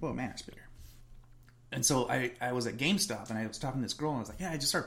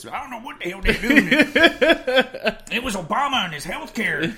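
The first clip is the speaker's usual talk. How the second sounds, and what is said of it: Put-on redneck voice. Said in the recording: “I don't know why I'm doing a redneck voice ... she just went all freaking redneck on me”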